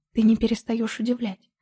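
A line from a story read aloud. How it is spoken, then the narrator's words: Whisper between kisses. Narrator (Russian): прошептал он между поцелуями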